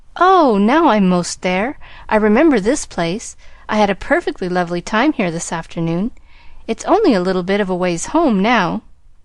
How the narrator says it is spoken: Pollyanna did exclaim joyfully

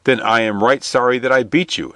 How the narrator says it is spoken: exclaimed the man

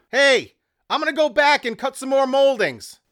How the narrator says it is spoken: Jerry yelled

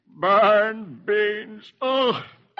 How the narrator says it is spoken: Dithers buries his face in his arms and moans

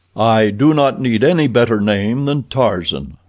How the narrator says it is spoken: replied the ape-man

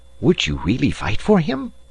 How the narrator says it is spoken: Passepartout, without being heard by his master or Aouda, whispered to the detective

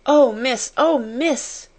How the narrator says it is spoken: she gasped

